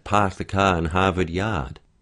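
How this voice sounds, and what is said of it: Put-on Boston accent. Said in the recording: “Or a Boston accent.”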